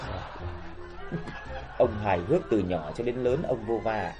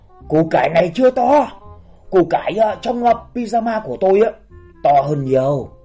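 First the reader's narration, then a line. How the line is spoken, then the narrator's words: Hurried exclamation. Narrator (Vietnamese): Ông vội ... kêu lên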